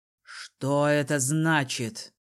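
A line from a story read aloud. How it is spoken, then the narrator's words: Menacing ruler's question. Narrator (Russian): грозно спросил верховный правитель Лаэри Шеран Рамма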